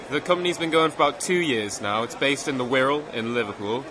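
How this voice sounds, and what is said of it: Slight northeastern Newcastle accent. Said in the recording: “do I detect a slight northeastern accent there? Are we talking Sunderland or Newcastle? ... Newcastle, mate.”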